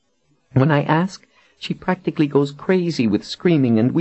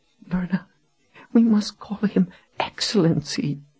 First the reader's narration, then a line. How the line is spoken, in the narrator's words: Janet said in a shuddering whisper